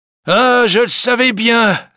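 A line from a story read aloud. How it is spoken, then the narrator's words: Banker exclaiming. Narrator (French): s'écrie le banquier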